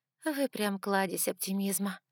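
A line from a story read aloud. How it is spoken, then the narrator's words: Sarcastic sigh. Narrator (Russian): саркастично вздохнула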